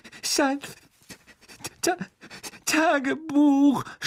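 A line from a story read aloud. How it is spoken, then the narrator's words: Sobbing. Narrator (German): schluchzte Ginny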